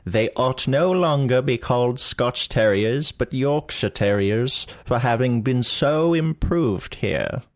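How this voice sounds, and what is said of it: Exaggerated cartoonish old British accent. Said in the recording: “we do these accents ... 19th century British ... it's 19th century cartoon British”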